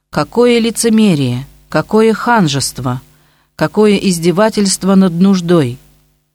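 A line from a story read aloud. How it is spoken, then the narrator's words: Indignant exclamation. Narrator (Russian): Толстой воскликнул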